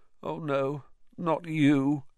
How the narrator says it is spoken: he moaned

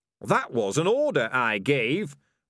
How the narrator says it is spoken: roared Ham and Pork

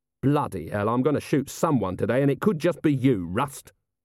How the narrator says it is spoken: Vimes snarled

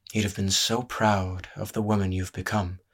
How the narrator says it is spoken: Elias breathed

